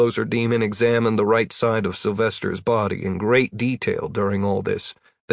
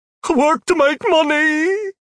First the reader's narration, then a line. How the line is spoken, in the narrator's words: Sylvester whined